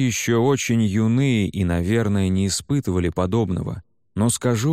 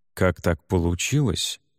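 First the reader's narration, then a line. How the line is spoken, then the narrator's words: Quiet murmur. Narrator (Russian): тихо промолвил мой спутник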